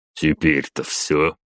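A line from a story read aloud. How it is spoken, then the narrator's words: Smirking grunt. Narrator (Russian): хмыкнул Батуми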